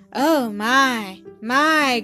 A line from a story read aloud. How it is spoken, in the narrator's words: groaned the stranger